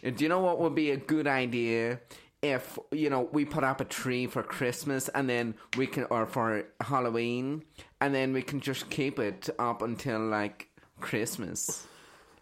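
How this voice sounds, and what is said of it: Bad put-on American accent. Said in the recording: “That was the worst accent ever ... I tried to do an American accent”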